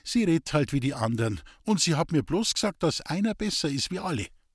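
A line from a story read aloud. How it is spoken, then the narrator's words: Calm interjection. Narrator (German): fiel Lisbeth ruhig ein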